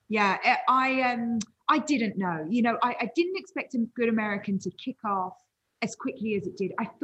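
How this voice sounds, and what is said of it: Charming London accent. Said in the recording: “your accent is so charming”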